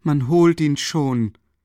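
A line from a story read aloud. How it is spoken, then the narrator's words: Loud call. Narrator (German): rief ihm Katharina Iwanowna laut zu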